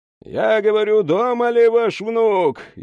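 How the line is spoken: Near shout. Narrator (Russian): едва ли не прокричал оперативник

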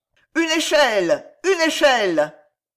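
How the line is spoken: Shouted. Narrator (French): cria

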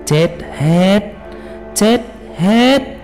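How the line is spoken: Harsh gritted voice. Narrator (Vietnamese): Thầy lúc này mới gằn giọng nói

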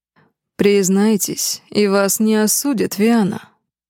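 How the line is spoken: Almost gentle speech. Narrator (Russian): почти ласково произнес Алев

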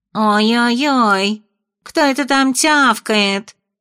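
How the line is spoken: Nasal little voice from water. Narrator (Russian): раздался гнусавый голосок из воды

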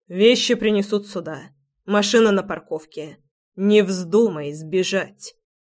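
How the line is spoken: Hoarse, harsh, commanding. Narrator (Russian): Голос звучал хрипло, жестко, в приказном тоне

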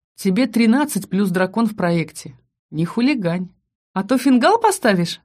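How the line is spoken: Laughing. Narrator (Russian): засмеялась я

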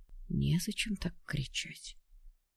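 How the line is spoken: Eerie mocking scarecrow whisper. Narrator (Russian): раздался шепот пугала, жуткий и насмешливый

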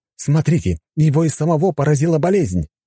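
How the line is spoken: Exclaiming host. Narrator (Russian): воскликнул ведущий

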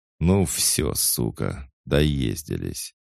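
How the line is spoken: Hoarse croak, spitting tooth. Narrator (Russian): сплевывая выбитый зуб, прохрипел Бадабум

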